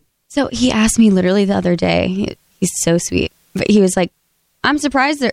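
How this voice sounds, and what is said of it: Usual voice. Nothing is said of it.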